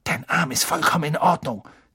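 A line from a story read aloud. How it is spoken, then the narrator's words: Male hiss. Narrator (German): zischte er Malfoy zu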